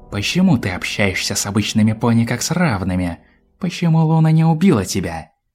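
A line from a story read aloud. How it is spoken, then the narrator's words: Angry hiss. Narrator (Russian): Злобно прошипела ночная гостья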